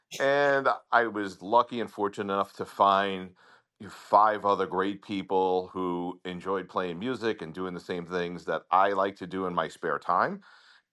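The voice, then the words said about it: Long Island New York accent. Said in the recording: “If you can't notice from my accent, I'm from Long Island.”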